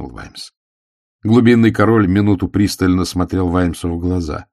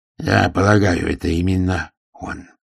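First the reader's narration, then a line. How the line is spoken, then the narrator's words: Quiet reply. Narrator (Russian): тихо ответил Рыс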